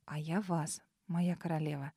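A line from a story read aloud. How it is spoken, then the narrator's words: Quiet. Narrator (Russian): также тихо произнесла Ауриня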